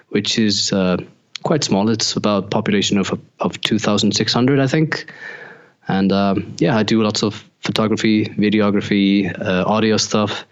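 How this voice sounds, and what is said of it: Icelandic accent, Irish-German sounding. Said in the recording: “I love your accent... some people have said that I sound Irish... It's almost like a combination of Irish and Germany like... when you speak like Icelandic... I think it's really cool sounding.”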